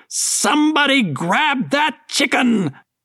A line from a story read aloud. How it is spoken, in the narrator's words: she ran center stage and shouted